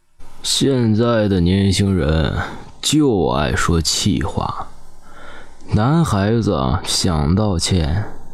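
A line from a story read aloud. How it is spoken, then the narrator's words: Old man sighing. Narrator (Chinese): 老爷爷叹了口气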